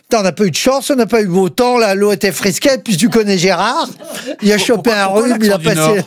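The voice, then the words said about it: Put-on northern French accent. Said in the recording (French): “Pourquoi l'accent du Nord?”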